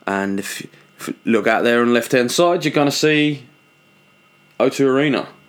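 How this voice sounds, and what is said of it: Put-on Australian accent. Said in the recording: “we're gonna fucking turn full Australian ... Again, Australian. I can't drop this Australian accent.”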